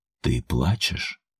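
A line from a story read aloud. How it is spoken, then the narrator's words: Hoarse, wary voice. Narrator (Russian): Голос был еще хриплым, но уже настороженным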